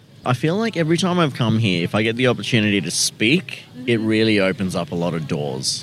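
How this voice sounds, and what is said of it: Australian accent. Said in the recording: “you have an accent ... Australia? ... Bang on.”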